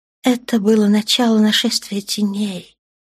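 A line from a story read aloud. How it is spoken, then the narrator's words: Soft. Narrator (Russian): мягко проговорила Наташа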